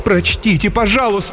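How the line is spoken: Exclaiming. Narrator (Russian): воскликнула Фокси Рейнард

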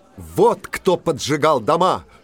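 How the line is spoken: Shouted. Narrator (Russian): крикнул Иван

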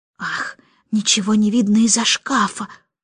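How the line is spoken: Muttered. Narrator (Russian): пробормотала она

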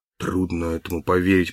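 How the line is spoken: Mutter. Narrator (Russian): пробормотал Даллас

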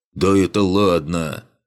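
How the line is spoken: Dwarf's deep bass. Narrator (Russian): пробасил гном

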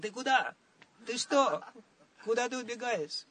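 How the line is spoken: Shouting. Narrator (Russian): Арджуна закричал

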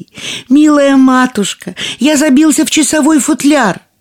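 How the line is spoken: Thin little voice shouting. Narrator (Russian): тоненький голосок прокричал ей

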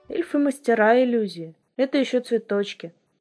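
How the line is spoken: Calm explanation. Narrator (Russian): спокойно пояснил Верес

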